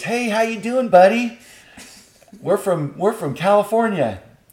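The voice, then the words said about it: Exaggerated Californian accent. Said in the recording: “in a California voice”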